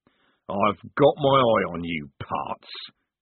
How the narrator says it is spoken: growled Strappy, temporarily defeated

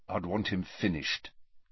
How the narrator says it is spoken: said Harry quietly

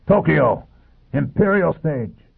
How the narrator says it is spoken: he shouted

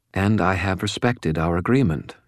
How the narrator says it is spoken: said

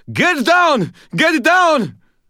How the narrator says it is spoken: Someone, Ramirez, I thought, screamed

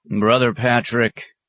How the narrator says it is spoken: he called toward the outer office

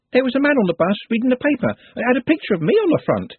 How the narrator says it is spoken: she said excitedly

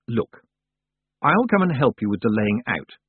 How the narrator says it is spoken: she said, as calmly as she could manage

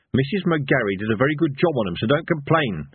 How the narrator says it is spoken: snapped Evil Harry

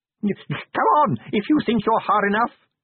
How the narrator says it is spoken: he screamed wildly

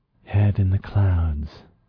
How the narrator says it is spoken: she breathed

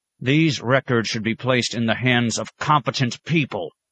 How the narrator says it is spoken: he said angrily

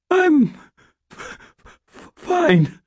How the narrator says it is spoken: I said in a hoarse, hardly understandable voice

